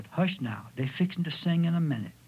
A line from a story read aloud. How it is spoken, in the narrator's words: Dilty whispered